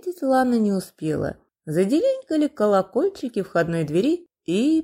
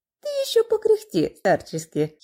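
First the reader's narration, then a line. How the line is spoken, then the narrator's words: Giggling. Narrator (Russian): хихикнула Лана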